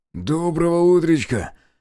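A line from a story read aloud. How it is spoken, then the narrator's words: Hoarse, breath steadied. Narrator (Russian): прохрипел лейтенант, выровняв дыхание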